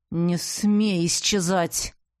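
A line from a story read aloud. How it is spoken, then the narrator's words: Hissing. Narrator (Russian): прошипел Ивар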